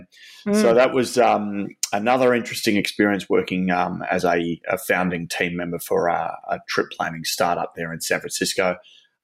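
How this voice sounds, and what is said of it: Very thick Australian accent. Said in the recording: “I've got a very thick Australian accent”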